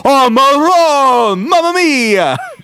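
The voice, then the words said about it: Fake Italian accent. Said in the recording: “do a fake Italian accent”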